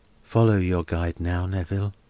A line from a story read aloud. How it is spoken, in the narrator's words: murmured Helena